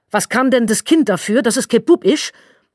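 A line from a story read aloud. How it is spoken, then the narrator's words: Shrieking. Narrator (German): kreischte in den Raum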